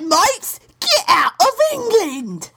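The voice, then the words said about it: Exaggerated British accent. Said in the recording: “How about some British? ... It could be the best accent you've ever heard. ... That's a great accent.”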